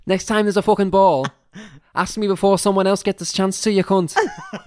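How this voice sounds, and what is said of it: Put-on Scouse accent. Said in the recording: “Accent, please ... Fucking Scouser”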